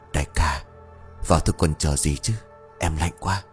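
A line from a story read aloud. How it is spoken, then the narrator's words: Whisper. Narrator (Vietnamese): Một tên thì thầm bảo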